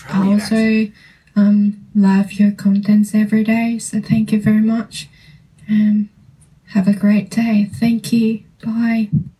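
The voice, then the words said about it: Strong Australian accent. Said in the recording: “That was Australian accent she's speaking. ... That was so accented. ... There were some words that was very, like, accent.”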